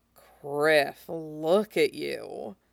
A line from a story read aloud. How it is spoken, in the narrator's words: he murmurs